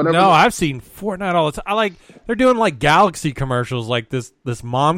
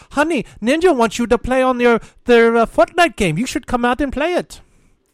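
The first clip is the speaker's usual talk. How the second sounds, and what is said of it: Put-on ethnic accent, woman's voice. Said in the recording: “That is a great impersonation of whatever fucking ethnicity that is”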